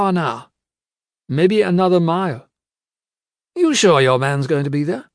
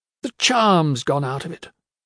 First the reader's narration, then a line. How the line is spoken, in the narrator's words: he sighed